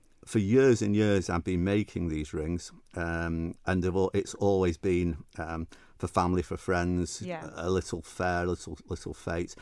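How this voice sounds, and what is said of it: Northern English Mancunian accent. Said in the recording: “my northern Mancunian accent”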